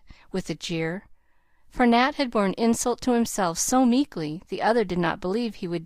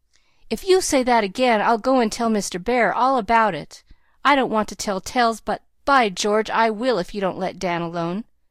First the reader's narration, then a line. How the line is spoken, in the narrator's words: Nat cried out fiercely